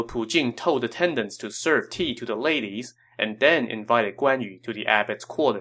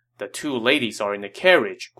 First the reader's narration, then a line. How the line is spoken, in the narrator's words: Guan Yu said